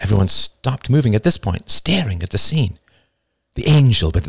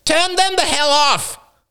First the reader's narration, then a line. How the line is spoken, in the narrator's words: Roman's wife screamed